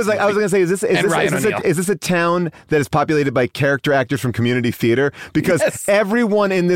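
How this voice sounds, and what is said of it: Usual voice. Nothing is said of it.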